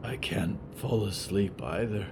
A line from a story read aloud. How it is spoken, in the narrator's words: Moth whispered